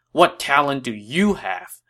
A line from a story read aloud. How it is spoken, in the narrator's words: he asked Mi Heng angrily